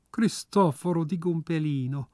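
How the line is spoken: Deeply moved, swooning sigh. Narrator (German): seufzte Signora tief gerührt und schmachtend

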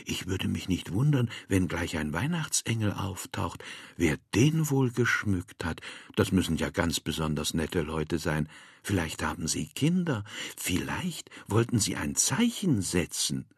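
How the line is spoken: Awed whisper. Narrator (German): Frau Müller flüsterte, wie im Märchen

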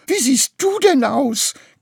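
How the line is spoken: Shrieking. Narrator (German): kreischte Graugans

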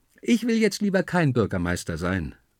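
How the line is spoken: Calling out. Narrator (German): ruft mir Juli zu

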